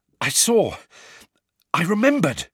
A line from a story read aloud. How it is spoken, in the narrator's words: Harry panted